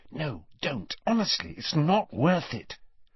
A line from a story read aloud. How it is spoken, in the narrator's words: Hermione, who was standing slightly behind them, whispered